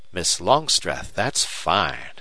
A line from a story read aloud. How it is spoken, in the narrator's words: exclaimed Duane